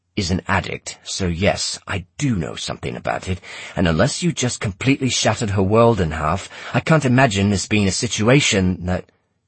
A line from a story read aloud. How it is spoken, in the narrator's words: he growled